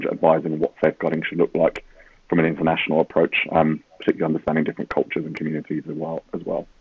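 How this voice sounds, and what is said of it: British accent. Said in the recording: “you'll probably hear from mine and ... accents, that uh, ... we are ... from over the pond ... I moved over from the UK”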